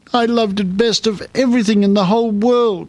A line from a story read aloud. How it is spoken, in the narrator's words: she sobbed